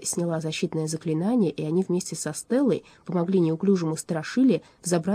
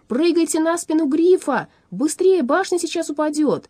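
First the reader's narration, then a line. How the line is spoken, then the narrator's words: Shout. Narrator (Russian): Аларм крикнул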